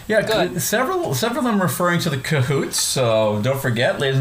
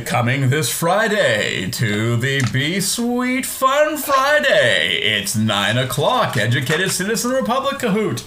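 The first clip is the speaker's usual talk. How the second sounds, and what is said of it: Fancy game show host voice. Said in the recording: “your fancy game show voice”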